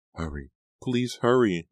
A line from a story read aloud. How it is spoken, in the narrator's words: Nora begged